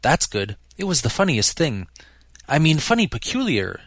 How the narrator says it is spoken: she clarified hastily

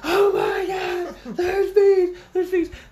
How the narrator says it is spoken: So we started doing screaming

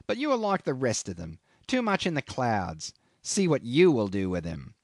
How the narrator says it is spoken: he sneered

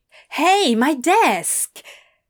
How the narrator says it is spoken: Adam shouted happily

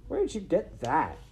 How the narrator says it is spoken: She asked scornfully

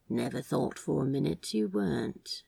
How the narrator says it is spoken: Crowley said huskily

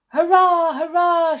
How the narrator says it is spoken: shouted Skip

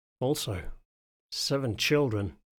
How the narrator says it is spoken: I murmured

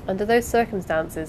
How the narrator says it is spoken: said the doctor

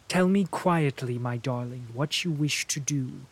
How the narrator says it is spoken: I said

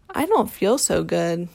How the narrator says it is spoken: said Sister in a low, croaky sort of voice

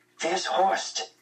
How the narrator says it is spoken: I whispered to Fritz

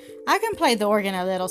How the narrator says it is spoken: said Betty

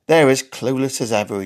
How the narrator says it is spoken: chuckled

